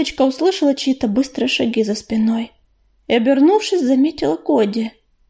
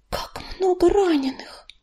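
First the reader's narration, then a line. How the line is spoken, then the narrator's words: Whisper. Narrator (Russian): прошептала она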